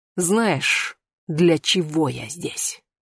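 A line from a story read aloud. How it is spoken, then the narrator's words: Hissed. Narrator (Russian): прошипела она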